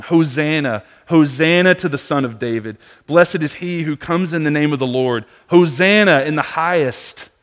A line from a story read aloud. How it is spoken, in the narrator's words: the crowds that went before him, that followed him, were shouting